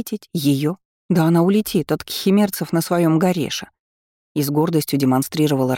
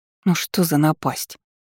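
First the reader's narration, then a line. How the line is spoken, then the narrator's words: Displeased voice. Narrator (Russian): недовольным голосом произнесла Эйвери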